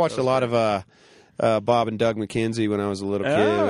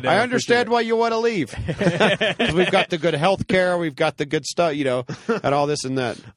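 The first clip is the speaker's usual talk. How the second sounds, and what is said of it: Good put-on Canadian accent. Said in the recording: “I've never heard your Canadian accent, but it's actually really good.”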